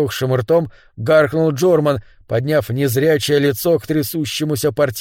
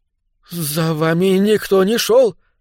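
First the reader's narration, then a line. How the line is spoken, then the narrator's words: Mumbled. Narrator (Russian): промямлил клерк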